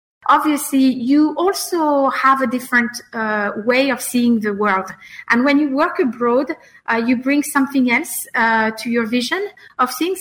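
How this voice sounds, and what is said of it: French accent. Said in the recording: “I'm French, in case you didn't guess from the accent”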